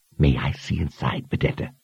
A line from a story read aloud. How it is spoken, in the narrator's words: asked in a strained whisper